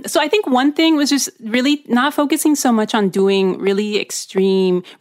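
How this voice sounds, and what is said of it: Bilingual speaker's accent. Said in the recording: “We speak with an accent, you guys. We're bilingual. ... It comes out sometimes”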